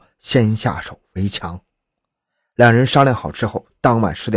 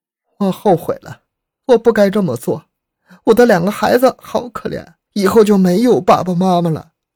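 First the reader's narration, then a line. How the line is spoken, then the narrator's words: Uncontrollable sobbing. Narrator (Chinese): 李玉兰失声痛哭起来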